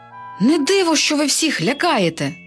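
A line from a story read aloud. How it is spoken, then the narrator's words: Exclaiming princess. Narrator (Ukrainian): вигукнула принцеса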